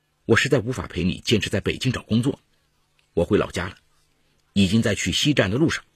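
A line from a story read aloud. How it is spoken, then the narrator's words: Cold, over phone. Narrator (Chinese): 拨打小五的电话，只听小五冷冷地说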